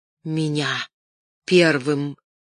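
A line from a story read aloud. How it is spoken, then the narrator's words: Hoarse wheeze. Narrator (Russian): просипел он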